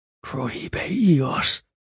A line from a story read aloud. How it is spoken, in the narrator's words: Angel whispered